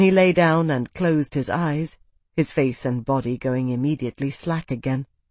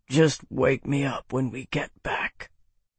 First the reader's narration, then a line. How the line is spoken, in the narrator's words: Bernard muttered